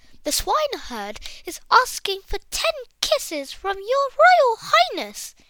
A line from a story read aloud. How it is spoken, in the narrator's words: the maid gasped